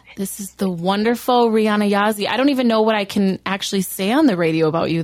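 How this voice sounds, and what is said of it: Voice slightly off from overuse. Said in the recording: “My voice is a little weird from talking so much at the fair for 12 days”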